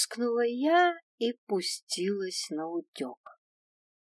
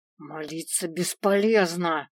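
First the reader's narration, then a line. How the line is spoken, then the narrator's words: Growl close. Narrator (Russian): прорычал мне в шею Свен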